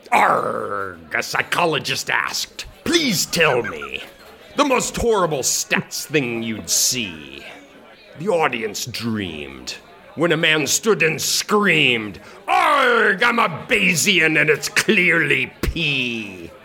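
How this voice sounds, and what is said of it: Amateur pirate voice. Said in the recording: “my voice skills are not only non-existent, but are actually negative ... I am going to try to read in a pirate voice”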